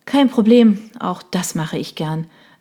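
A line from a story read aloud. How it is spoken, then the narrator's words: Sighing reply. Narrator (German): erwiderte Michelle seufzend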